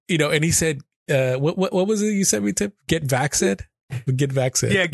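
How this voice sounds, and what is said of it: Usual voice. Nothing is said of it.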